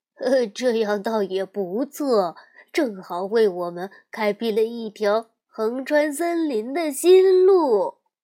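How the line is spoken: Amazed. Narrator (Chinese): 弗雷德惊叹地说

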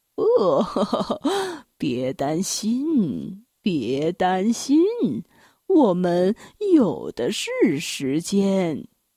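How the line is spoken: Jolly laughing. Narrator (Chinese): 圣诞老人呵呵的笑着说

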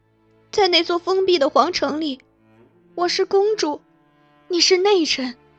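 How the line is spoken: Tearful breathy whisper. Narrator (Chinese): 公主两滴清泪随之滑落，她以气音轻声说

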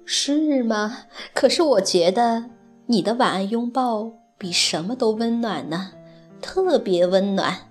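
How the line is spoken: Gentle smiling mother. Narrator (Chinese): 熊妈妈温柔地笑着说

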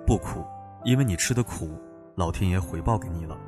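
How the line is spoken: Calm, flat. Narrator (Chinese): 贾玲淡淡的说

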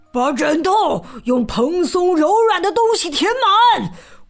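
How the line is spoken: Roaring. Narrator (Chinese): 他咆哮道

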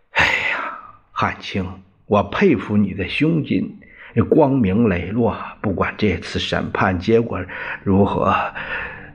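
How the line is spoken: Slight sigh. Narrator (Chinese): 张治中 微叹了一声

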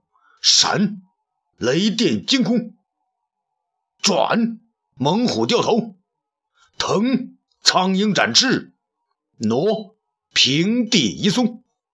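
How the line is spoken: Loud shout. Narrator (Chinese): 雷劈便大声叫道

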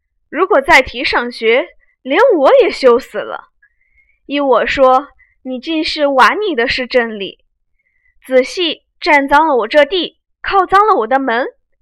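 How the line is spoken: Sneering. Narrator (Chinese): 贾政冷笑道

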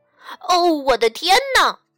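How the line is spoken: Shouting. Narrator (Chinese): 他喊道

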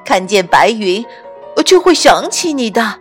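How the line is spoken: Laughing owl. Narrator (Chinese): 蓝色的猫头鹰笑着说

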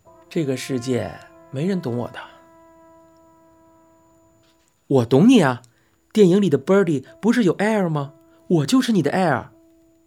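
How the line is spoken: Exaggerated sigh. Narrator (Chinese): Birdy 夸张的叹了口气，说道

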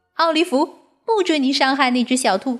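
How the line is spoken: Shouting. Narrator (Chinese): 提利小姐喊道

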